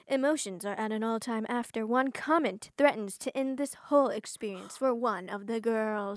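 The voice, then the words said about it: Movie trailer narrator voice. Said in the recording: “trailer voice”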